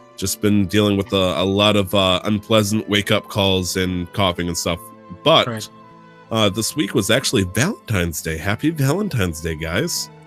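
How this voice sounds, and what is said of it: Deeper, sore-throated voice. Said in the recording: “my voice is a little bit deeper, even without the audio software doing the magic for me ... fighting off a sore throat”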